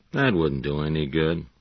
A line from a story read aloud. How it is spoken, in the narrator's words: Ole Anderson said